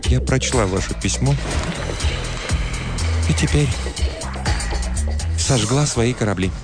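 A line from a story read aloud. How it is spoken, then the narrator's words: Quiet voice. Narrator (Russian): она сказала тихим голосом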